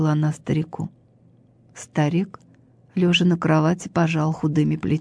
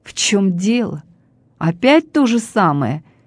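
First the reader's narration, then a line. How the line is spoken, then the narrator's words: Angry grumble. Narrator (Russian): сердито проворчал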